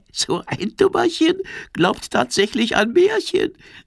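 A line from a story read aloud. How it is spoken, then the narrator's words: Giggling. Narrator (German): kichert die Libelle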